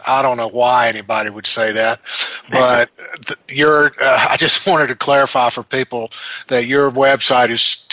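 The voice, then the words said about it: Very Southern US accent. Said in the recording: “I'm told I have a very southern accent.”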